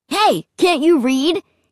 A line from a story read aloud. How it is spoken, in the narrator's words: He shouted angrily